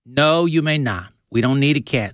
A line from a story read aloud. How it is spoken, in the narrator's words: said Lizzie's mom very firmly